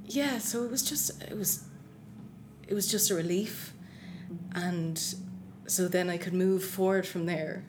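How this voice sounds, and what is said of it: Emotional, choked-up voice. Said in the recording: “sorry, I'm getting emotional there.”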